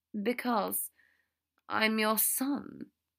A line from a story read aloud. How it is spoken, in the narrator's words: Draco said weakly